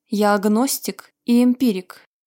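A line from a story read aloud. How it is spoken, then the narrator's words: Plain. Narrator (Russian): сказал он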